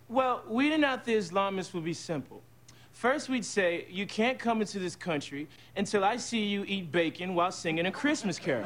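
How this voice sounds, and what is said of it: Imitates another person's voice. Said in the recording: “terrible impression ... Just an awful impression”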